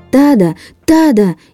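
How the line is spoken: Shouting at full strength. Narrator (Russian): изо всех сил закричал Чан

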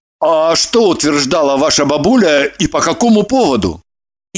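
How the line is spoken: Embarrassed mutter. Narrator (Russian): Евдокия смутилась и буркнула

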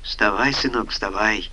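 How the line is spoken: Frightened, embarrassed. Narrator (Russian): испуганно проговорила, смущенно оглядываясь

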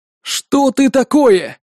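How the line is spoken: Group howling. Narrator (Russian): взвыли ребята

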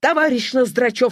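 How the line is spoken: Stern. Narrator (Russian): строго сказал директор

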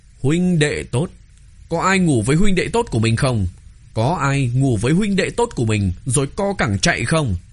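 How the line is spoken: Angry, slamming the table. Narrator (Vietnamese): Nàng đập bàn, giận dữ nói

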